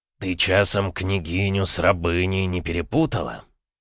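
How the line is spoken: Overly calm. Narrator (Russian): Чересчур спокойно поинтересовался Петр Алексеевич

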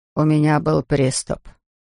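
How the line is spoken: Mumbling. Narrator (Russian): пробормотал он

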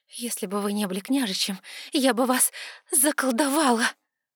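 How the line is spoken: Angry rasp. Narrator (Russian): прохрипела я гневно

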